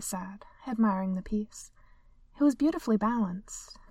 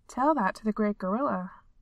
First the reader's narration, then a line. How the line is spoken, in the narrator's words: Nakia said, though she had to stifle another chuckle, flattered despite herself